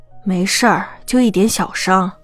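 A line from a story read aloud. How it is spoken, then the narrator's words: Sigh, low voice. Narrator (Chinese): 静觉寺呼了一口气，低声道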